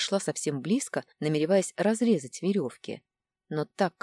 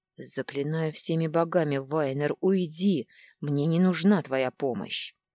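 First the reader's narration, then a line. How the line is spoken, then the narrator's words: Through gritted teeth, breathless. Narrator (Russian): цедит каждое слово сквозь зубы и едва дышит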